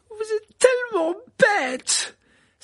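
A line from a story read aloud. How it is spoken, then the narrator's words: Tearful angry cry. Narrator (French): s'écria Hermione en tapant du pied, des larmes coulant sur sa robe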